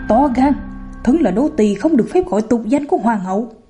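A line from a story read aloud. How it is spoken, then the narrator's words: Sudden angry shout. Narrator (Vietnamese): Cẩm Tú lập tức biến sắc, quát lớn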